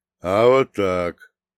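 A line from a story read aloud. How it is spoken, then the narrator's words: Old man's snort. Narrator (Russian): дед хмыкнув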